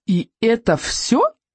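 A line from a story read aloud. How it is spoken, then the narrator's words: Exclaiming. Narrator (Russian): воскликнул Икинг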